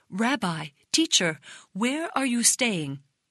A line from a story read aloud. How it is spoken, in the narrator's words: They exclaimed